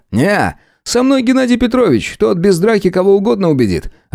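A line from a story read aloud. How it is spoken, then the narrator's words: Laughing over the phone. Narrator (Russian): рассмеялся в трубку Михаил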